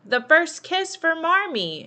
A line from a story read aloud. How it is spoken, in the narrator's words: Meg shouted